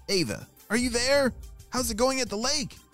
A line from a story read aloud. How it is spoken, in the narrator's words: shouted Mr